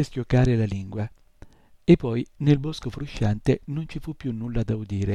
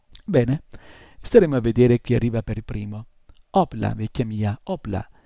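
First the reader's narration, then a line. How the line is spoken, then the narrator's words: Exclaiming. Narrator (Italian): esclamò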